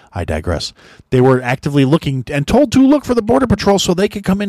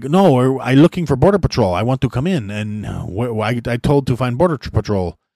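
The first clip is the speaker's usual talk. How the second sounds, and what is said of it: Poor imitation of unplaceable foreign accent. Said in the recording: “this is a horrible accent, but I'm just basing it off the video I heard, and I couldn't place the guy's fucking accent, but it was not like Central American”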